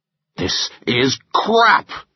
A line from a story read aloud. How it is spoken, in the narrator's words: he thundered